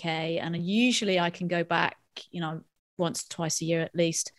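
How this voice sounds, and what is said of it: British accent. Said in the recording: “as I'm sure your listeners can tell from my accent, I grew up in the UK”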